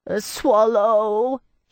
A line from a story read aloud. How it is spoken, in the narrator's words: he howled